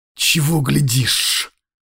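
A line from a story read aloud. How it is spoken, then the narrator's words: Whispered through teeth. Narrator (Russian): прошептала Снежана сквозь зубы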